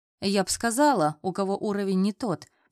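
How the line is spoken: Grumbling. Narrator (Russian): проворчала Ира

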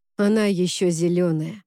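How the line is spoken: Surprisingly calm. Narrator (Russian): ответил Уорд удивительно спокойным тоном

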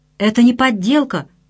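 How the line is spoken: Exclaimed. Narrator (Russian): воскликнул Цвингли

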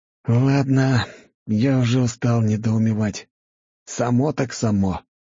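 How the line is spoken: Resigned sigh. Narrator (Russian): обреченно вздохнул парень

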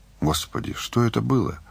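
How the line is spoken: Numb-lipped mumble, woman. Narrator (Russian): пробормотала Таня, еле шевеля онемевшими губами

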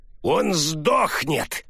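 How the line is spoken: Old man barking furiously. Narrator (Russian): старик яростно рявкнул

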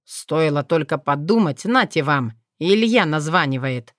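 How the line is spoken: Grumbled. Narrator (Russian): проворчал Иван

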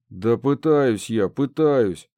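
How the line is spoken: Grumbled. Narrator (Russian): проворчал я

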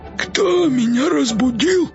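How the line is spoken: Creaky questioning voice. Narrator (Russian): спросил скрипучим голосом

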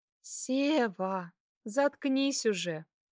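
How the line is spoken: Affectionate. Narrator (Russian): Ласково проговорила она

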